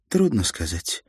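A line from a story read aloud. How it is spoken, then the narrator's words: Sighed. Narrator (Russian): она вздохнула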